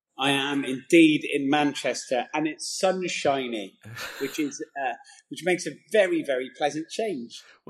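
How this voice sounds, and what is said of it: Rural Gloucestershire English accent. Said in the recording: “that is not a Manchester accent, unless I'm much mistaken ... it's most definitely a bumpkin accent. I'm from Gloucester.”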